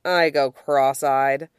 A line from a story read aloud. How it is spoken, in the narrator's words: Yubai sighs heavily